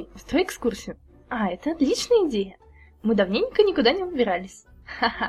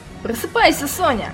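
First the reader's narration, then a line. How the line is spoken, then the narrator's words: Yelling. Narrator (Russian): заорала она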